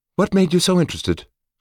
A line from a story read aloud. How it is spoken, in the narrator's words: asked Lya, in an innocent tone I couldn't quite be sure of